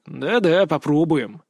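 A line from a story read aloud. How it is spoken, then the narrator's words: Grumbling. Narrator (Russian): проворчал я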